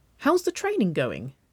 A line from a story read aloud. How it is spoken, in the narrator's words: she asked brightly